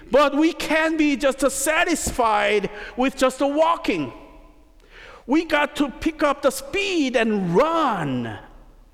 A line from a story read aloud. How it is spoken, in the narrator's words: And the preacher raised his voice a little more, saying